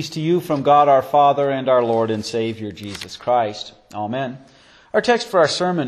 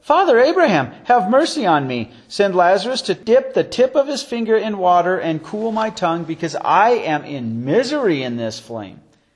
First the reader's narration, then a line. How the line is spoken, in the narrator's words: He called out and said